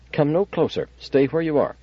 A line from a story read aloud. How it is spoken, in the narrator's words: A female voice said sharply